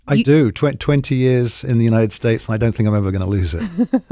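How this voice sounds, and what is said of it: British accent. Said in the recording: “you have a British accent.”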